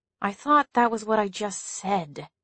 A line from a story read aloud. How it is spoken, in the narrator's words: Allison muttered